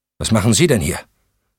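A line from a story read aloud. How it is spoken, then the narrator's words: Curt brusque question. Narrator (German): fragte Valerie schroff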